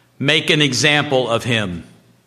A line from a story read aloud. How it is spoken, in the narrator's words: he said